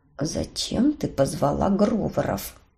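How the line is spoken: Quiet through gritted teeth. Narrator (Russian): Тихо цедил Роберт

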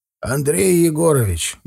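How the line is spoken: Grumbled. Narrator (Russian): буркнул он

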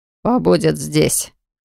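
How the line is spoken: Snorting prince. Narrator (Russian): хмыкнул принц

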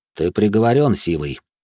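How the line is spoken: Calm. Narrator (Russian): спокойно произнес я

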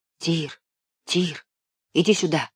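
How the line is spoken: Whispered. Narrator (Russian): шепнул Левка

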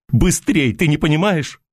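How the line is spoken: Shrill shout, young man. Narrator (Russian): визгливо крикнул парень

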